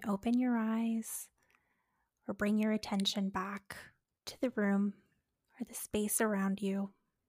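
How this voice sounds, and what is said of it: Calm soothing meditation voice. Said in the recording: “my mindfulness voice ... that was so nice ... like meditation app as a nighttime story”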